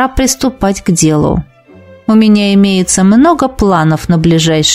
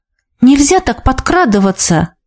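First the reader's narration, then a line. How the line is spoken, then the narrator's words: Exclaimed. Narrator (Russian): воскликнула я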